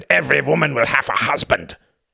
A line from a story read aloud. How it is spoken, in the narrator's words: he shouted